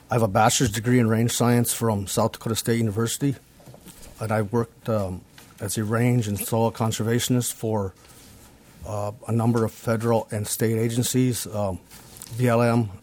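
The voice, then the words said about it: Voice of someone with a cold. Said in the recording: “Excuse me. I have a cold I'm kind of trying to get over.”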